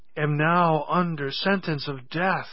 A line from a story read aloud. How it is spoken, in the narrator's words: he cried